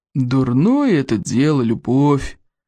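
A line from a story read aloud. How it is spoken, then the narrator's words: Gloomy. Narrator (Russian): мрачно покачал головой Стойку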